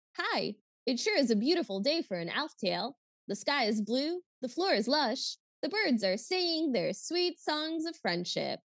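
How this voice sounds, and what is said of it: Weird, toneless cartoon voice. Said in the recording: “his voice is that Alf voice, and it's very weird and toneless”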